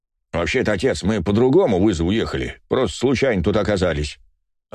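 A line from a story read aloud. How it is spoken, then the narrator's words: Plain. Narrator (Russian): ответил Иваныч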